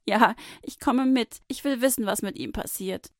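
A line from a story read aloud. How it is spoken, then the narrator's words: Sobbing. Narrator (German): schluchzte Miriam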